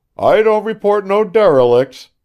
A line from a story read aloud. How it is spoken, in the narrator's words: shouted John from aloft